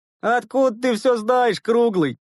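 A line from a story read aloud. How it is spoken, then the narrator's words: Mocking question. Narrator (Russian): насмешливо спросил Овчаренко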